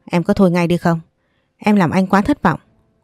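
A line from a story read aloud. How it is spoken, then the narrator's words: Scolding shout. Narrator (Vietnamese): Anh Xuân thấy vậy quát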